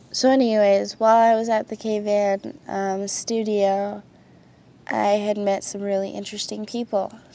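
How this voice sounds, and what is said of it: Tired, slightly sick-sounding voice. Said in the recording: “It is 6 in the morning. I'm really tired. I'm a little sick ... sorry about my voice.”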